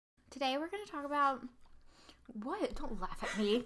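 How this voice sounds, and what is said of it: High, girlish phone voice. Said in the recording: “I was using my phone voice, which makes me sound like a 12-year-old girl.”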